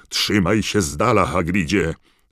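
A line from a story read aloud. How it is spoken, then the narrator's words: Wizard calling out. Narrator (Polish): zawołał jeden z czarodziejów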